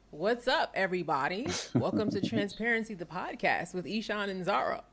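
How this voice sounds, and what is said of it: Announcer-style radio voice. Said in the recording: “It's my radio voice.”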